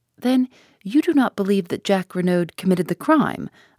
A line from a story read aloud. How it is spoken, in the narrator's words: I asked eagerly